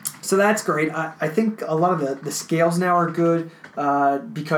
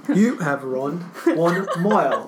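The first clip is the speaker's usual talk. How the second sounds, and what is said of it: Put-on British accent. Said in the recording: “In a British voice.”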